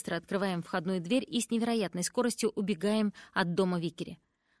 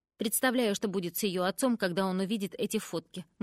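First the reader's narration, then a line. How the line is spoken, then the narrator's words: Plain. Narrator (Russian): говорит Бэкс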